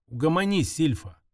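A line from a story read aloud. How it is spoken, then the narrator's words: Plain. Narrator (Russian): сказал я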